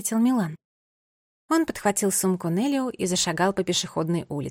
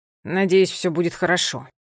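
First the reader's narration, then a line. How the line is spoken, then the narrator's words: Grumbling. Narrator (Russian): проворчал Милан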